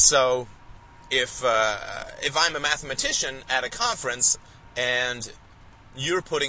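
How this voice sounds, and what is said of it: Usual voice. Nothing is said of it.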